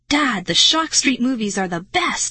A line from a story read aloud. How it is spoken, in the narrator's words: I cried